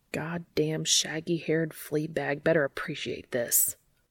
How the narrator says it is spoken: he grumbles under his breath

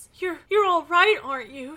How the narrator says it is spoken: She sobbed

